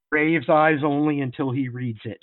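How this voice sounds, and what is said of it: Put-on Australian accent. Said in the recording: “Go ahead and give us that line in some kind of Australian accent”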